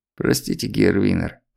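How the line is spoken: Muttering. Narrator (Russian): пробормотал он

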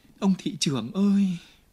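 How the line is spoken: Calling out. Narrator (Vietnamese): Chị kêu lên

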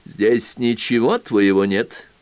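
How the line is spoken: Deep bass voice. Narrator (Russian): пробасил

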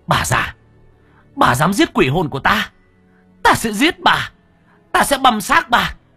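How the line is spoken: Screaming threat. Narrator (Vietnamese): Cô anh hét lên về phía bà Mai Cảnh

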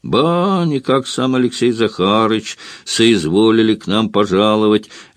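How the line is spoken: Lazy drawl. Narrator (Russian): лениво завел Варламов

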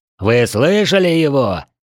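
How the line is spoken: Bark. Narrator (Russian): рявкнул он

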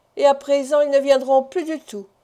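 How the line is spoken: Sighing addition. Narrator (French): ajouta Jonas en soupirant

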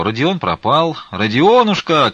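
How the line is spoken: Shouting at full strength. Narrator (Russian): крикнул он, сколько было мочи

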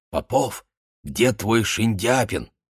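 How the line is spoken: Loud whisper. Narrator (Russian): кричали шепотом, да и глуховат он был

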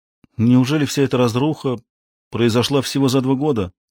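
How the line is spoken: Disappointed sigh. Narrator (Russian): разочарованно вздохнула Эмили

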